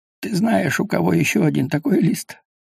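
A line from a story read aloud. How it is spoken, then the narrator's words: Sad. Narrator (Russian): грустно сказал Хмель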